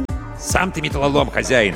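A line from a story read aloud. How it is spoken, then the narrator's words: Snapped back. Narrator (Russian): огрызнулся Аркаша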